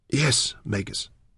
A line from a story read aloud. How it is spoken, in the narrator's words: she whispered